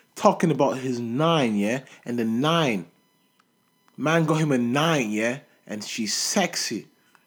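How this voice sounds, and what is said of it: Imitated English accent, not convincing. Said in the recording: “I know that accent was off”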